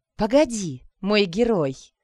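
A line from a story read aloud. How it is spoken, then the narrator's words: Coaxing, ingratiating woman. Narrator (Russian): вкрадчивым голосом произнесла красавица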